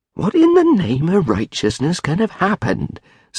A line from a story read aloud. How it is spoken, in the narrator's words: said old William more uneasily